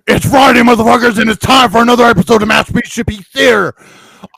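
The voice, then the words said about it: Impression of Robert Frank. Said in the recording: “my Robert Frank ... Your impression sucks.”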